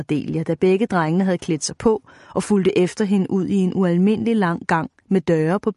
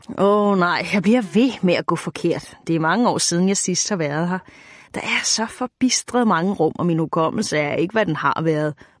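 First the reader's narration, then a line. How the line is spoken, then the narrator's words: Witch muttering sourly. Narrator (Danish): mumlede heksen surt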